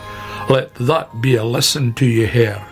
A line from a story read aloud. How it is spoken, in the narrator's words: said Badger